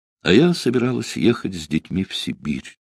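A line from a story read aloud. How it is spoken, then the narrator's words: Sudden sad remark. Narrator (Russian): вдруг грустно сказала она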